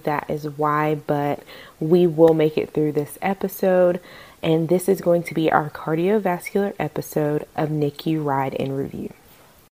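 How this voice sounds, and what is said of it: Slightly raspy voice. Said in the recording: “getting over a little bit of a cold ... my voice is a little bit raspy”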